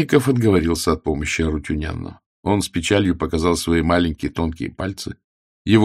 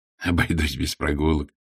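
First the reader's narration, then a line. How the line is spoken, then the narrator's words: Laughing. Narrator (Russian): Генрих засмеялся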